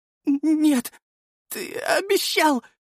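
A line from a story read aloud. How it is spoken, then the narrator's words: Sobbing. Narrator (Russian): всхлипывала она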